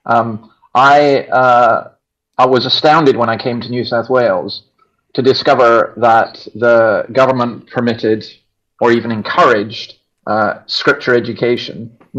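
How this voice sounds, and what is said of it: Non-local accent. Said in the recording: “obviously you can gather by my accents, I'm not from around here.”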